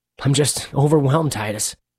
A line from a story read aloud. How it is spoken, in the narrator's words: Marcus said, his voice trembling